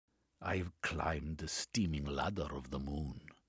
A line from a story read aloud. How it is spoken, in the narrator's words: Valentina replied, her voice firm